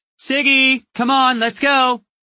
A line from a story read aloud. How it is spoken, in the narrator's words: A tall woman in the distance yelled